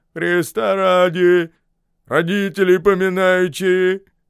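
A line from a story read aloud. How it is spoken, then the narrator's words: Deep voice, scolding tone. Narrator (Russian): басом возглашает, точно ругаясь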